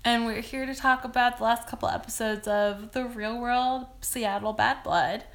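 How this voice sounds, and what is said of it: Raspy voice. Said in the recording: “raspy oh, voice. Oh, sexy. Sexy, voice.”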